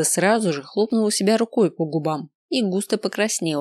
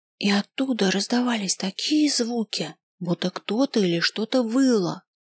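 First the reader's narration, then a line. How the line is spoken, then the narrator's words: Very quiet whisper. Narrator (Russian): совсем уж шепотом добавила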